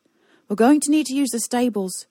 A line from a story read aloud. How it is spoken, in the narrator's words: shouted Ez